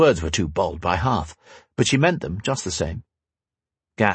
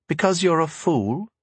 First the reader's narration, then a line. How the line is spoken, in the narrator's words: Sonica offered sweetly